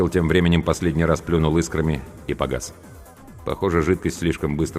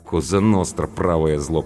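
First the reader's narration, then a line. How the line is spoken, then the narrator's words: Grumbled. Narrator (Russian): пробурчала Анка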